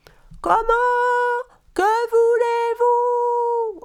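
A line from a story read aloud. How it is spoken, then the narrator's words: Voices yelling from below. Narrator (French): ont hurlé les voix depuis le bas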